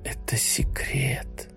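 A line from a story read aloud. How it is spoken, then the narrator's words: Whisper. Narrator (Russian): прошептал он ей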